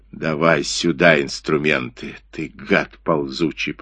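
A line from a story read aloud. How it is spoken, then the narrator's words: Growled. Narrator (Russian): прорычал он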